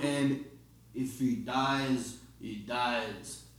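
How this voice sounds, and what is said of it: Impression of Drago character voice. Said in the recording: “How's that, Drago? ... It was average. ... I'm getting better at my impression.”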